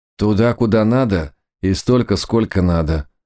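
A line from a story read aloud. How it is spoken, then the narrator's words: Gloomy declaration. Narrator (Russian): мрачно заявил Сусанин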